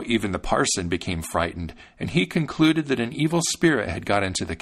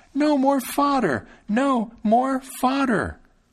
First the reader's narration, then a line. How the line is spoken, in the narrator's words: Thumbling cried out once again